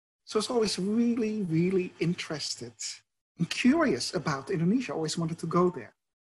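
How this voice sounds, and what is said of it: Dutch accent. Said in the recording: “you might hear from my accent, I'm Dutch”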